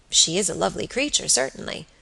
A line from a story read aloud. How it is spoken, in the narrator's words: murmured Robert, with placid admiration